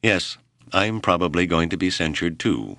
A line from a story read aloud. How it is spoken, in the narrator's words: Whipple said dryly